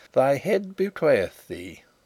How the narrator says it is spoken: he chuckled

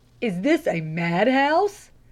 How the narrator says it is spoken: gasped the lay reader

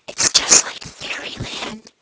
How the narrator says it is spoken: whispered the eldest little girl

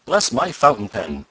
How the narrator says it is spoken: exclaimed Mr

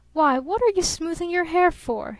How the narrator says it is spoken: He called out accusingly

